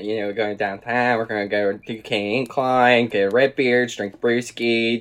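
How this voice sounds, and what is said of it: Thick Pittsburgh accent. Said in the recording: “My Pittsburgh accent is so fucking thick”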